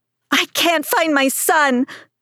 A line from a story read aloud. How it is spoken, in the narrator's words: a woman screamed